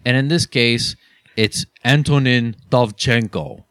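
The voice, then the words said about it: Put-on foreign accent. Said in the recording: “That's pretty good. I love that accent.”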